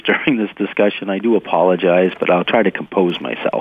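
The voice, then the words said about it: Hoarse, congested voice. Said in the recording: “I've got a head cold, so if I sound a little hoarse and lose my voice”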